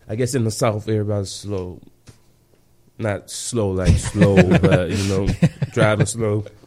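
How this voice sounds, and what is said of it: Strong Southern US accent. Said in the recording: “People understand my accent... what is ... saying, though? What kind of language is ... speaking?... oh, you changed on. You talk proper now.”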